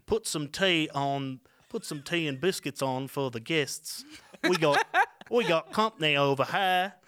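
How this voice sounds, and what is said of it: Attempted British accent, sounds New Zealand. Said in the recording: “do a British accent ... You're doing a New Zealand accent.”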